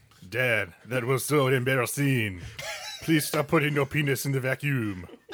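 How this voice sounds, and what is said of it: Bad put-on French accent. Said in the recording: “because we're going French ... We know where the bad accents are.”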